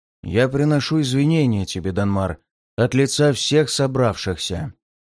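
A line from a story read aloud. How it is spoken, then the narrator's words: Muffled announcement, patriarch. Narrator (Russian): глухо объявил патриарх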